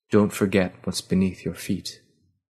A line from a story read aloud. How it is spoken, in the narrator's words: the words, spoken softly